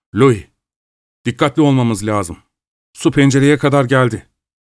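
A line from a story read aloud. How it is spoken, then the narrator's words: Shouted. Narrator (Turkish): diye bağırdı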